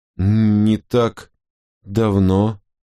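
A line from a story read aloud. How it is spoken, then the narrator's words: Stammering. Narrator (Russian): запинаясь, произнесла она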